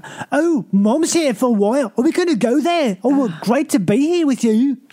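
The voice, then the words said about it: Northern English accent, Scottish-Irish mix. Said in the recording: “people who live in like where Jon Snow is from ... their accents, it's so annoying ... It's like this weird mixture of Scottish and Irish ... that accent ... the one you just did”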